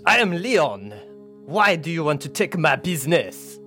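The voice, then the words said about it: Convincing put-on accent. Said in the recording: “your extremely convincing accent”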